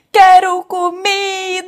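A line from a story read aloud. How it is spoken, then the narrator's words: Baby shouting. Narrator (Portuguese): o bebê gritar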